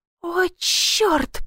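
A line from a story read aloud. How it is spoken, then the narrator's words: Hissed. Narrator (Russian): прошипела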